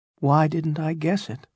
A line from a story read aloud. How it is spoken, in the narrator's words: he said quietly